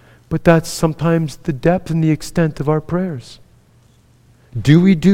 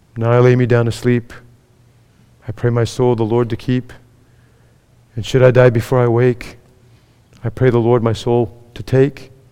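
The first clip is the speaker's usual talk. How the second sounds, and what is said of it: Sarcastic recitation. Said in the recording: “I'm being sarcastic.”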